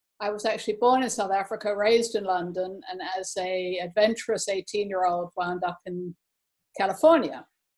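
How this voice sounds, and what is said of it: Somewhat English accent. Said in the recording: “I have somewhat of an English accent.”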